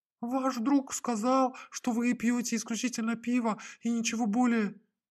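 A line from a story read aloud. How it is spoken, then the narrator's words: Babbled in embarrassment, waiter. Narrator (Russian): пролепетал официант, покрываясь пятнами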